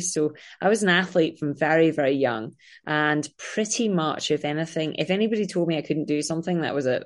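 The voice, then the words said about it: Scottish accent. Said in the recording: “I am from Scotland, as you can tell by my crazy accent.”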